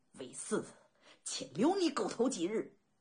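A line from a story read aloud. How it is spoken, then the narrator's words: Furious, through gritted teeth. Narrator (Chinese): 齐闵王脸色铁青，咬牙切齿骂道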